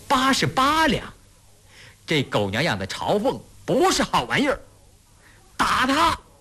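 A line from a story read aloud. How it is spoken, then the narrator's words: Loud shout. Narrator (Chinese): 狗大喊了一声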